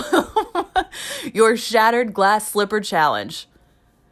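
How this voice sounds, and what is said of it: Usual voice. Nothing is said of it.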